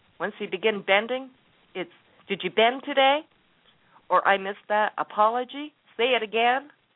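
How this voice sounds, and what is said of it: Southern American accent. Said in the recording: “my southern accent jumped out on me”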